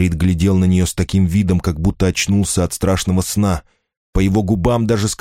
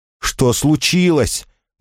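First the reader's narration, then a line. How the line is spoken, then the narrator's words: Accusing shout. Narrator (Russian): он кричал на Роксану, как будто она была виновата в несчастье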